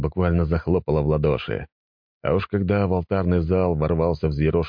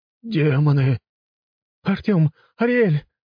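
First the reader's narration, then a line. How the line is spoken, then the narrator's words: Screaming. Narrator (Russian): завопила Линда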